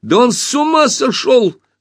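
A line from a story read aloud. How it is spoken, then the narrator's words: Shout. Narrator (Russian): закричал Пашка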